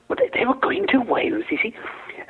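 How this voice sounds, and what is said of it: Put-on Welsh accent. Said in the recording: “Slipping into the Welsh accent again there now.”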